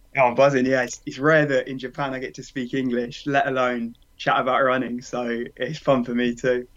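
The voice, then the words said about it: British accent. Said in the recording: “you got the UK accent”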